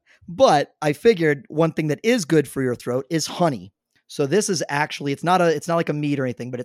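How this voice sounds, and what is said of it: Hoarse, partly lost voice. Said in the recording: “listeners can probably tell, I'm starting to lose my voice a little bit”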